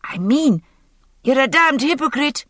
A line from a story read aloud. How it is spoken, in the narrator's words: his son shouted hoarsely